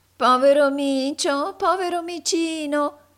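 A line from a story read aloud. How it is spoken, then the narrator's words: Angry nasal woman's shout. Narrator (Italian): gridò tutta irata una vecchia ragazza dalla voce nasale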